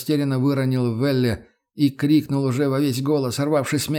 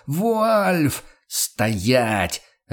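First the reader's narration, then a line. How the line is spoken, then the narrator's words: Barked. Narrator (Russian): рявкнул Курт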